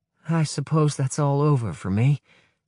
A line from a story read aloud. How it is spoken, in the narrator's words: says Gizuka sadly